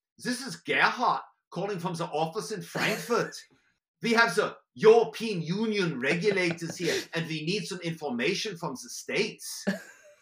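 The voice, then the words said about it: Put-on German accent. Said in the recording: “My go-to was German”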